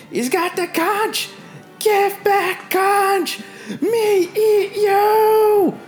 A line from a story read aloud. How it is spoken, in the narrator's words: Chief Gob begins to wildly flail about, screaming